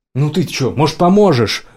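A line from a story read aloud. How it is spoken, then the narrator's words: Shouted from the doorway. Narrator (Russian): выкрикнул с порога Оуэн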